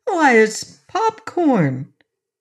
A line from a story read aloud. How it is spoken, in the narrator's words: she cried